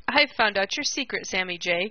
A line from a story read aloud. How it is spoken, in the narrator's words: cried Peter